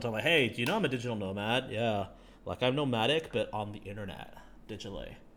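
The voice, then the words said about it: Put-on American accent. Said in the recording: “you gave them an American like accent.”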